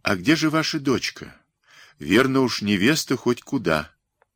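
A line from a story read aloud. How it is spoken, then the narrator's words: Affectionate question. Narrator (Russian): Созинов ласково спросил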